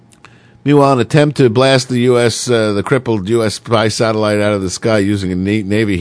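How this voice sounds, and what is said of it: Usual voice. Nothing is said of it.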